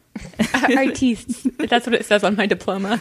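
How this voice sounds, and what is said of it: Put-on accent. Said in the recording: “Accent.”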